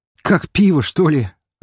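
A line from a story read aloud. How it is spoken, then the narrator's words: Laughing loudly. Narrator (Russian): расхохотался мой собеседник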